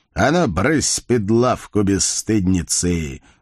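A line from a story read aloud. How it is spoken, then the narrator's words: Mock-stern bark. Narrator (Russian): нарочито грозно рявкнул Байстрюк, хотя глаза его смеялись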